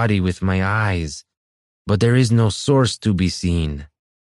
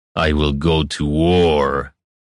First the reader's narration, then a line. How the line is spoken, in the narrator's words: Nehashtag growled